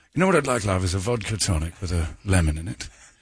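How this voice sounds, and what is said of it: Put-on elegant aristocratic accent. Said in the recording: “When you speak that way, you do look like an aristocrat ... the most elegant accent I've ever heard in my life”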